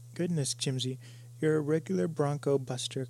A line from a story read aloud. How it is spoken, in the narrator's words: cried Peggy admirably